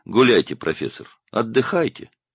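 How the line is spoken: Condescending elder's tone. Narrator (Russian): сказал он снисходительным тоном старшего

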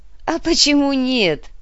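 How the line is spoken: Laughing. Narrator (Russian): рассмеялся Борис

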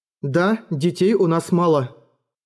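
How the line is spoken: Plain. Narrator (Russian): сказала она

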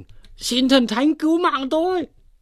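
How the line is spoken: Frantic crying out. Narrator (Vietnamese): Triệu Năng cũng lật đật, miệng cũng kêu lên

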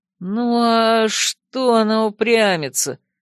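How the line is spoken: Uncertain bleating voice. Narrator (Russian): Неуверенно проблеял он, совсем другим голосом

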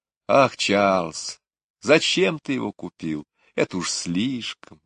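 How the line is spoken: Delighted exclamation. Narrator (Russian): воскликнула мама, но глаза у нее сияли

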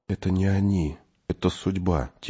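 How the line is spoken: Quiet child's voice. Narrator (Russian): тихо сказал мальчик

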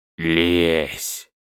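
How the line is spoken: Vicious hiss, young man. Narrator (Russian): Злобно прошипел паренек

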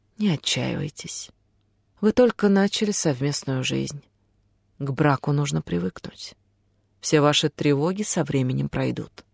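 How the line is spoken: Forced calm. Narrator (Russian): сказала настолько спокойно, насколько смогла

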